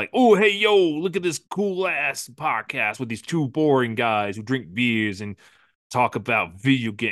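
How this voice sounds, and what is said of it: Put-on New York/Jersey accent. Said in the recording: “New York accent's okay ... Jersey. Yeah, that's more Jersey. Jersey accent.”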